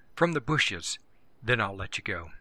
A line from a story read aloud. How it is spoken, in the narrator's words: Benny whispered